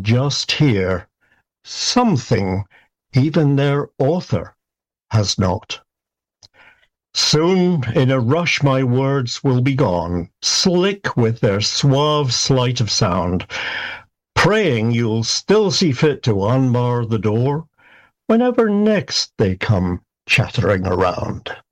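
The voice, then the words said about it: Scottish accent. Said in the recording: “that Scottish accent”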